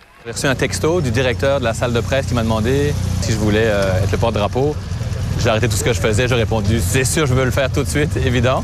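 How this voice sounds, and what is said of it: Mixed Belgian and Québécois French accent. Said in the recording (French): “Vous allez l'entendre avec son accent... j'ai l'accent québécois... j'ai l'accent belge”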